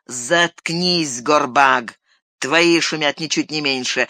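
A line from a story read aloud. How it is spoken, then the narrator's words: Plain. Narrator (Russian): ответил другой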